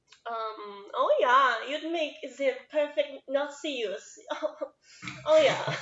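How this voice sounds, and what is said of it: Put-on German accent. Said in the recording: “I got to learn a German accent. ... I could see you doing a German. Give us a taste.”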